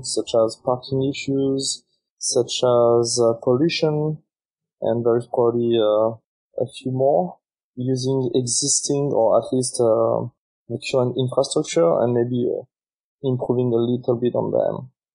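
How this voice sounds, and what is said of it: French accent. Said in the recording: “your accent, if I am correct, is from Europe ... I'm actually from France”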